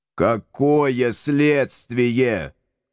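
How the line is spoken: Howling. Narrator (Russian): взвыл я

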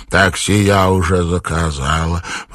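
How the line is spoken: Hoarse wheeze. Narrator (Russian): прихрипела она

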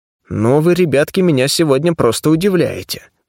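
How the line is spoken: Grumbling. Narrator (Russian): пробурчал я

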